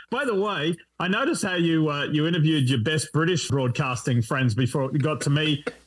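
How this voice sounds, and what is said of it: Australian accent. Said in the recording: “English and Australian accents are two different things ... I'm not English”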